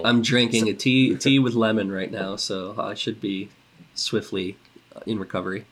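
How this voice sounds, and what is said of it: Congested, stuffy voice. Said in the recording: “I'm a little bit congested. I don't know if anyone can tell from my voice.”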